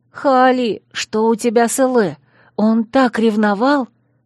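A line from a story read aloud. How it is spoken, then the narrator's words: Loud whisper. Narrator (Russian): громко шепнула Малина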